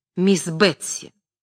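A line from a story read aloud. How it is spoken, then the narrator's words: Curt. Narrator (Russian): она сказала отрывисто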